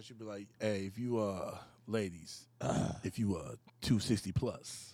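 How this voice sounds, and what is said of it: Radio announcer voice. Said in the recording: “Tell me how you would do it with your radio voice.”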